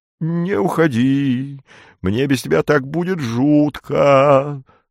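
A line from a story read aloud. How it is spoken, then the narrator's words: Sobbing voice. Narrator (Russian): с рыданием в голосе объяснил Спиридон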